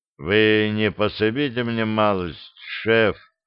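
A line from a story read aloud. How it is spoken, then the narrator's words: Flat colorless voice. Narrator (Russian): Бесцветным голосом попросил он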